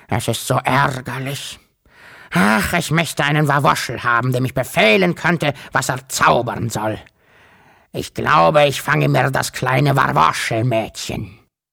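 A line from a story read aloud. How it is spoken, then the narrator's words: Croaking. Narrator (German): krächzte er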